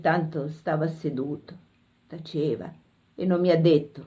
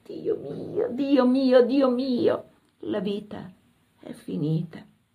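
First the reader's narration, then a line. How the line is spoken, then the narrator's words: Loud sobbing murmur. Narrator (Italian): Singhiozzavo forte, mormoravo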